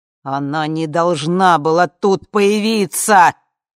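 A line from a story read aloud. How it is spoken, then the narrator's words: Shouting over screams. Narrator (Russian): кричал он жене сквозь непрекращающиеся уже крики и проклятия Ви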